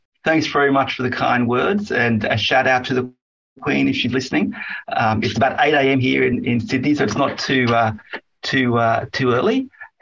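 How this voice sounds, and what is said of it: Australian accent. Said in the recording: “the accent is going to be beautiful ... the beautiful accents of both of you”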